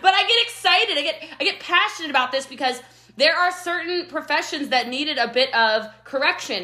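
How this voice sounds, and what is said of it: Loud, energetic, excited speech. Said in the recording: “You got a lot of energy. I don't know if you're yelling at me or if you're just very happy ... I'm not yelling, I swear. I'm just loud.”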